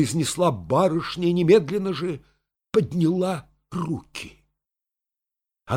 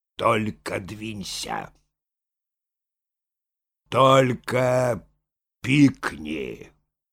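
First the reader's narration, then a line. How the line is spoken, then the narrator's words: Slow, imposing, gloating. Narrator (Russian): Наслаждаясь ее смущением, Мошкин произнес медленно и внушительно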